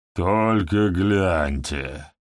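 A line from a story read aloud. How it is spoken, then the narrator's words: Groaning. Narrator (Russian): простонал Фалибор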